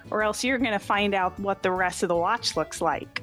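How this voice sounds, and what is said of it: Character voice for Vim. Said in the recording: “That is a great character voice ... Vim only knows how to throw her voice in one way, and it's this.”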